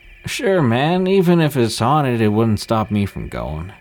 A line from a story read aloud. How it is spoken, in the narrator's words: slurred